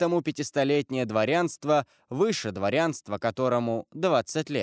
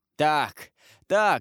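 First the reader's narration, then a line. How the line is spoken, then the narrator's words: Laughing. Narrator (Russian): сказал, смеясь Данглар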